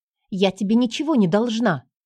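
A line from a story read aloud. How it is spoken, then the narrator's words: Snapping. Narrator (Russian): огрызнулась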